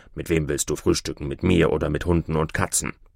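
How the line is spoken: Grumbling. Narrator (German): brummte Türschemann wieder

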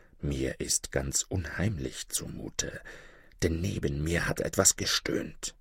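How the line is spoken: Soft whisper. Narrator (German): flüsterte leise

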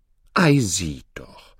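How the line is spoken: Plain. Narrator (German): sagte Oda

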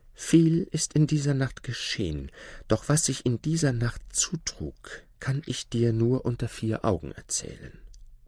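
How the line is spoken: Whispering. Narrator (German): flüsterte Marchana

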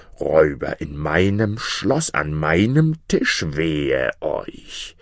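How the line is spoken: Angry blustering wizard. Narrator (German): der Zauberer polterte zornig

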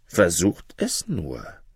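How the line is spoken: Dark, low voice. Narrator (German): antwortete Rujan mit dunkler Stimme

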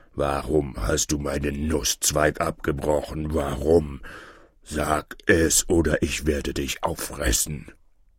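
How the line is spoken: Bear's terrible roar. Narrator (German): Mit furchtbarer Stimme brüllte der Bär

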